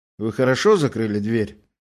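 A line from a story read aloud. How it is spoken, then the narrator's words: Indifferent question. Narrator (Russian): спросил равнодушным голосом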